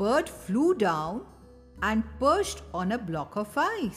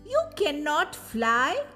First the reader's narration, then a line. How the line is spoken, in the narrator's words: cried the bird